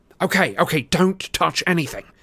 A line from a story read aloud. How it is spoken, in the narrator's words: said Harry desperately